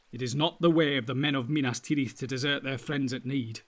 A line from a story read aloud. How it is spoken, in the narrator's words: he said